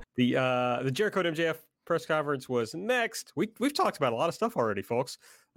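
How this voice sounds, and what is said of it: Speaks with a regional accent. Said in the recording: “That's always a hard word for me to say in my accent.”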